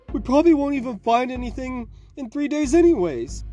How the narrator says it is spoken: Finnegan pleaded

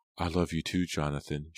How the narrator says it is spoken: she replied softly

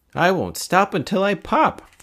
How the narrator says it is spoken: cried

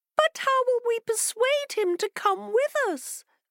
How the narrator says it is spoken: They cried

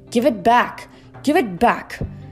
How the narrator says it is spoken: Over the roar of the storm yelling

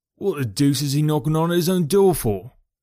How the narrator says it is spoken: cried the clerk

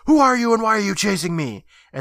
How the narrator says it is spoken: Eddie Scream asks

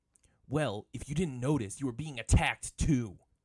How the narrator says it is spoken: Zuko growled, trying to contain his anger

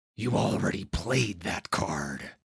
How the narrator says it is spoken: a guard growl

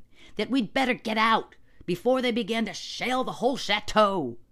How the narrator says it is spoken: shouted John

